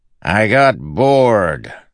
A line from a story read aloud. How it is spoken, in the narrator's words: Sadius shouted back